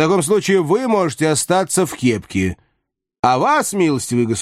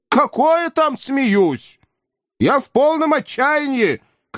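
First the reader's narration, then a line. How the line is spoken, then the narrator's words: Shouting. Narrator (Russian): крикнул Филипп Филиппович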